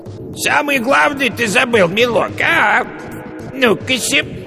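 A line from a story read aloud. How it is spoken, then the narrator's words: Falsely thin call, old witch. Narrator (Russian): яга позвала фальшиво тонким голосом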